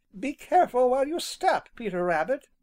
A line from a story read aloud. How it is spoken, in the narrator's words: someone exclaimed